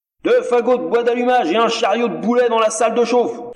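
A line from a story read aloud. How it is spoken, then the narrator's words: Peremptory thundering into receiver. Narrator (French): tonna-t-il d'un ton péremptoire dans le cornet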